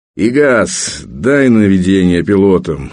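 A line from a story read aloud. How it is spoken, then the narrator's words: Annoyed grumble. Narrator (Russian): раздосадованно пробурчал старпом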